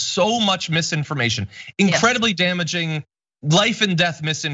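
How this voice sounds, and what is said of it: Usual voice. Nothing is said of it.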